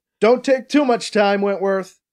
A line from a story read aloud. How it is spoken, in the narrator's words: BC shouts at the mirror